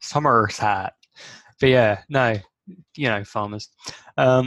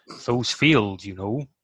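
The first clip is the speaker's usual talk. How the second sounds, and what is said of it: Put-on old Dorset rural accent. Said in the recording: “That's a not a Kent accent ... It's old Dorset.”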